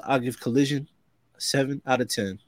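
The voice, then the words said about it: Imitates another person's voice. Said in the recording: “in my Keith Lee voice”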